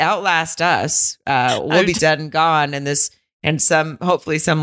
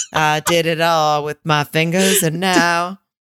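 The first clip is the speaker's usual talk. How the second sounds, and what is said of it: Put-on Southern accent. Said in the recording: “Maybe with a southern accent.”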